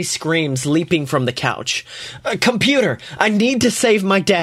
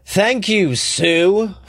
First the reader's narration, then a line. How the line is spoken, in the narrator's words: Scotty groans